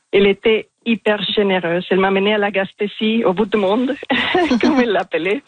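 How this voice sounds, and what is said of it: French with a marked foreign accent. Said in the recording (French): “j'ai un accent assez marqué ... Il est magnifique, cet accent”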